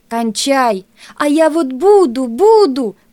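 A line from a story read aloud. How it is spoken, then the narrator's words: Almost shouting. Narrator (Russian): почти закричала Лариска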